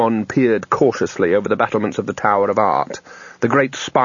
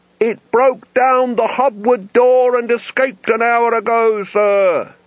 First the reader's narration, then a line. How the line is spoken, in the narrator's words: he yelled